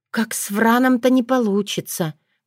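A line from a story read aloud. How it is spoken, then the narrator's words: Sighing. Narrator (Russian): вздохнула Татьяна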